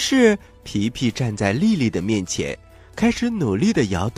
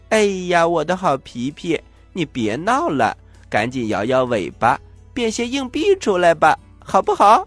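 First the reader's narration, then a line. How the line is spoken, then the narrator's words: Laughing. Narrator (Chinese): 丽丽笑着说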